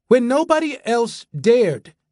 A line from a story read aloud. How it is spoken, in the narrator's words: he called out